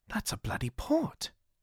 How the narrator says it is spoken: Jonathan muttered

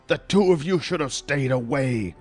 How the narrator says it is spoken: the mystery man spat

